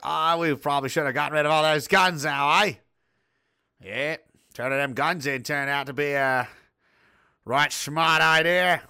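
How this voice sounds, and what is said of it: Attempted Australian accent, not convincing. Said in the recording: “I can't do Australia. ... speaking with an Australian accent”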